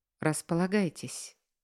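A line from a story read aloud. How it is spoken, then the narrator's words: Gentle smiling voice. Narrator (Russian): мягко улыбается босс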